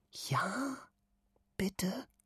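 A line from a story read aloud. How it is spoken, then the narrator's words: Whispered. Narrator (German): flüstert sie mit glänzenden Augen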